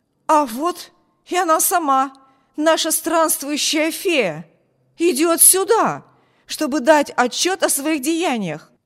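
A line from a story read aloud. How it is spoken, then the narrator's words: Exclamation. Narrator (Russian): Воскликнул он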